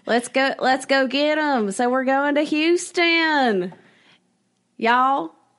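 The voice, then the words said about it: Put-on Southern accent. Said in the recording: “Southern accent, y'all.”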